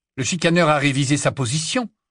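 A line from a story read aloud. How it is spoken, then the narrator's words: Cold question. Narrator (French): demanda froidement Harry en réfléchissant très vite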